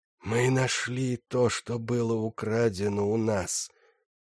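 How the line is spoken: Whisper. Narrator (Russian): прошептал Гриндилоу

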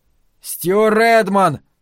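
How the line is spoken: Shouting into darkness. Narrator (Russian): крикнул он в темноту

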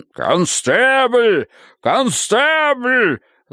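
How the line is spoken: Thunderous yell. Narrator (Russian): Заорал человек за спиной Садбери голосом, которым можно было бы вышибать двери и разносить ставни

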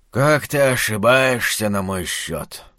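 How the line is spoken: Tired doctor. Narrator (Russian): устало сказал доктор

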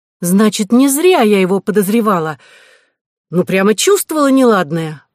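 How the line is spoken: Exclaiming. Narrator (Russian): воскликнула Кора

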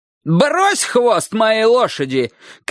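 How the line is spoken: Old man shouting. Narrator (Russian): крикнул дедушка по-абхазски

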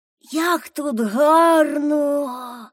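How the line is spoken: Sigh. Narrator (Ukrainian): Зітхнув Томі

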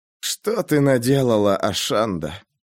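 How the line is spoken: Muttering. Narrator (Russian): пробормотал француз

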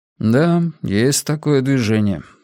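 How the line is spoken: Calm. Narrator (Russian): спокойно ответил Иона

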